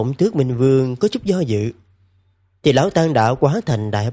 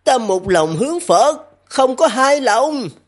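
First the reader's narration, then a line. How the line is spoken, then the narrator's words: Loud shout through pain. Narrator (Vietnamese): nén đau hét lớn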